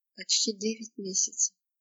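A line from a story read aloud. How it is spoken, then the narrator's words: Muffled, hollow voice. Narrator (Russian): глухо произнес он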